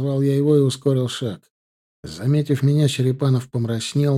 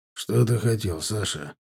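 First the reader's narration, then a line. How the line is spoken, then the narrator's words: Sighing. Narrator (Russian): вздохнул он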